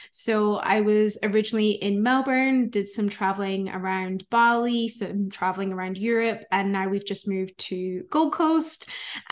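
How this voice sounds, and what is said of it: Scottish accent. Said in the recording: “you guys might hear an accent. So I'm originally from Scotland”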